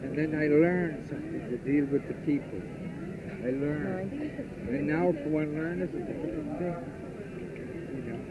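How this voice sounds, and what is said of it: Irish accent. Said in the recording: “I thought I detected an Irish accent.”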